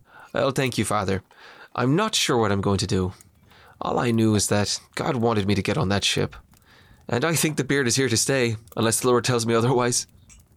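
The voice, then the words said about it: Irish accent. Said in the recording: “And so did the accent. You came back sounding like a true Irishman.”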